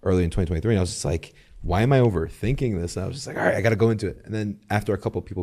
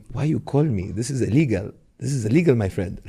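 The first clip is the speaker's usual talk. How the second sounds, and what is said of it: Put-on Egyptian accent. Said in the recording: “does the Egyptian accent”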